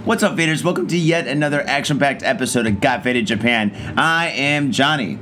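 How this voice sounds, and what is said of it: Hoarse, worn-out voice. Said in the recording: “I am severely hungover ... my voice is dead”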